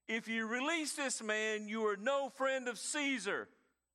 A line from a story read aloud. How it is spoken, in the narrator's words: the Jews cried out, saying